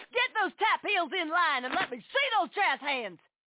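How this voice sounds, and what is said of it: Drill instructor voice. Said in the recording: “my impression of a drill instructor directing a musical”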